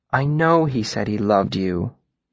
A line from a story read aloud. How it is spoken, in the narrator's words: Denna said, her voice gentle